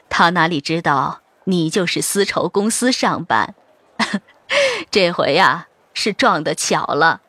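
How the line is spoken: Low voice, smiling. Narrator (Chinese): 笑着低声说道

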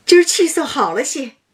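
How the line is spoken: Laughing. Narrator (Chinese): 笑道

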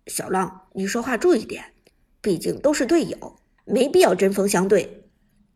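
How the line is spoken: Deep, stern voice. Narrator (Chinese): 阿飞有些看不下去，沉声说道

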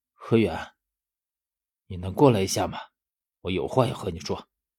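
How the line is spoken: Gloomy, dark voice. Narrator (Chinese): 十三他用我从没有听过的阴沉声音说

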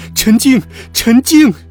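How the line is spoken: Sobbing shout. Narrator (Chinese): 我痛哭流涕的喊着

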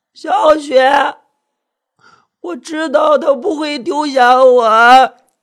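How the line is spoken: Hoarse, ecstatic shouting. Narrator (Chinese): 李佳瑞迷迷糊糊，欣喜若狂，嘶哑着嗓子叫嚷着

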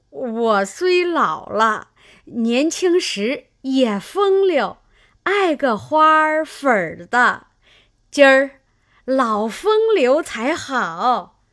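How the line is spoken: Old woman laughing. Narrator (Chinese): 刘姥姥笑道

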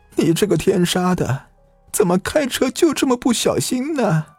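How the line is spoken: Crying mother shouting. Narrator (Chinese): 吴正雄的母亲也来了，哭着喊道

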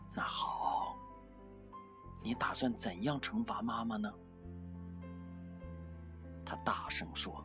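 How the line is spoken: Soft hesitant question. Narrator (Chinese): 我愣了一会儿，轻声问

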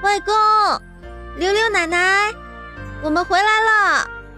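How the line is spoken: Loud calling. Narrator (Chinese): 慕容婉儿…大声喊着

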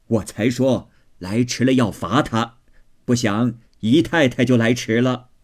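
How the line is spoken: Laughing. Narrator (Chinese): 贾母笑道

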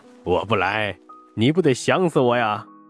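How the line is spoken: Chuckling. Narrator (Chinese): 马祥生嘿嘿笑道

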